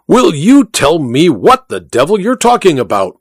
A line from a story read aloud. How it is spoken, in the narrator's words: roared the Duke